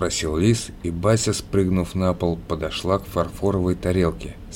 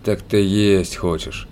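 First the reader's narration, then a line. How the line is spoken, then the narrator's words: Realizing, with a sigh. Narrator (Russian): догадался Лис и вздохнул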